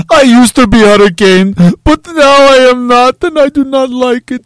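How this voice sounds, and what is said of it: Put-on Eastern European accent. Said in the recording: “Why is it like an Eastern European accent?”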